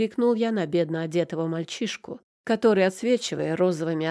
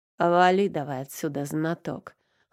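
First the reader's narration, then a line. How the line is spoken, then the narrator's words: Amused snort. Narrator (Russian): хмыкнул я с интересом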